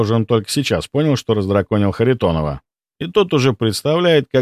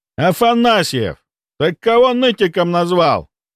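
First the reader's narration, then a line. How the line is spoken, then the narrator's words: Roaring. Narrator (Russian): взревел Харитонов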